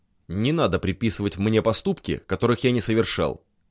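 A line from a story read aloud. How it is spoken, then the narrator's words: Cold. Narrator (Russian): холодно проговорил доктор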